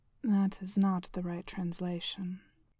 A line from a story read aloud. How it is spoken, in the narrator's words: Heimdall said calmly